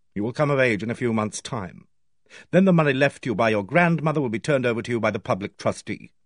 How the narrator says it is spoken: He said coldly

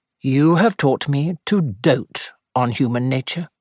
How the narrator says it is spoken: said Sir Henry solemnly

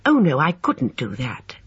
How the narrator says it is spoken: said Emma firmly

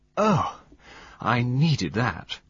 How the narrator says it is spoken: she sighed

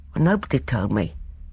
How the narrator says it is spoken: he said sullenly

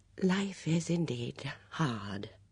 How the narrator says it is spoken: murmured

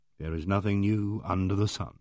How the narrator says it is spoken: I murmured

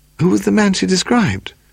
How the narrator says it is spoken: Paul sighed

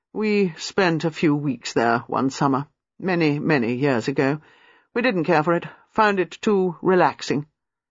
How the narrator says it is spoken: Erskine said in that same expressionless voice

